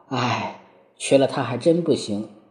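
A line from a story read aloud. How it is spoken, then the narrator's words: Sighing. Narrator (Chinese): 红泡泡低头叹气道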